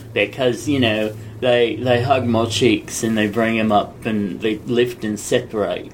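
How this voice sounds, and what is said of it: Bad put-on Australian accent. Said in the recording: “I'm doing a bad Aussie accent.”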